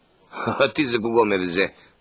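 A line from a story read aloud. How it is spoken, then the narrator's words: Laughing. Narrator (Bulgarian): каза чуп и се засмя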